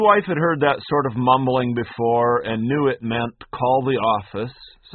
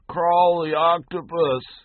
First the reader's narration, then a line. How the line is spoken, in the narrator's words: He buried his face deeper into his pillow and groaned something that sounded like